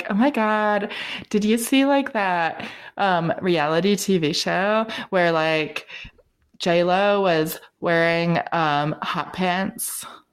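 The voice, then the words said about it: Sorority girl accent. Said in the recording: “that accent”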